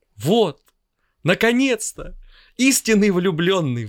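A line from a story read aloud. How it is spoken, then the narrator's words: Exclamation. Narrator (Russian): воскликнул Соловей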